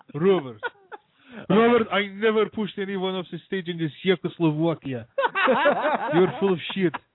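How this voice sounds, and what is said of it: Put-on Russian accent. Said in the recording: “When he does his Russian accent, it's perfect. It's so good. It's like, how is he not Russian? ... does the accent too”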